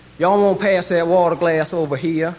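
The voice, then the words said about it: Put-on Texan drawl. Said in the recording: “the Texas accents ... I hadn't recognized that accent.”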